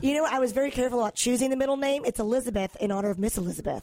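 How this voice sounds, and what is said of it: Hoarse, raspy sick voice. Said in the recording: “I sound like a smoker today. I'm a little sick ... It's my radio voice.”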